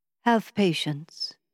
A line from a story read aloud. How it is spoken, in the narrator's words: he said gently